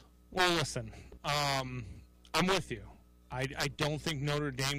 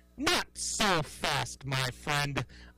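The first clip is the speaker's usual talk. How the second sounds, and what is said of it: Imitates another person's voice. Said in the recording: “my favorite impression of Lee Corso”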